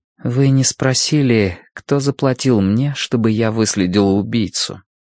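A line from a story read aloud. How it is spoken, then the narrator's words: Quiet. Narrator (Russian): Она тихо сказала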